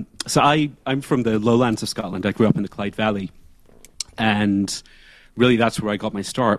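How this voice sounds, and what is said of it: Mixed blended accent. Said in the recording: “your accent's a pretty interesting meld”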